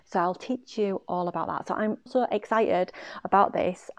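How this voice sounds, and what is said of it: Excited voice. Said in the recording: “I'm sure you can hear from my voice.”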